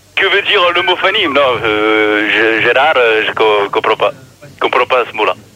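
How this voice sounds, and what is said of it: Imitates another person's voice. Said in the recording (French): “N'essaye pas de prendre la voix de René”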